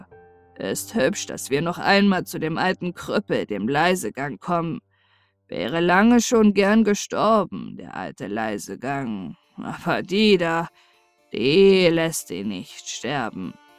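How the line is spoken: Tired. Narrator (German): sagte er müde

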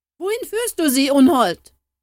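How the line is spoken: Young man screaming, distraught. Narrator (German): schrie der Jüngling außer sich, da er sah, dass der Geist seine unschuldige Beute um keinen Preis mehr freigeben würde

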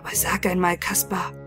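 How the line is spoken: Whispered in the ear. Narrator (German): flüsterte er ihm ins Ohr

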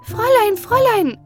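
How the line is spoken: Sudden scream. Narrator (German): Auf einmal aber schrie Elsbeth

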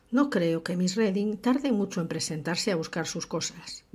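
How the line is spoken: Plain. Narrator (Spanish): dijo

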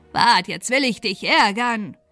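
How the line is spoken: Angry croak. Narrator (German): krächzte zornig

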